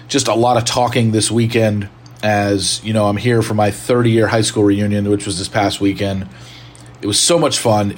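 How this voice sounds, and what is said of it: Slightly strained voice. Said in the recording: “you probably maybe can tell my voice is a little bit strained ... just having to yell a lot. Voice is a little bit strained”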